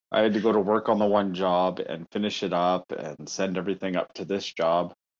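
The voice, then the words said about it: Tired, sad-sounding voice. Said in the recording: “You sound so sad. ... Oh, I'm just so tired.”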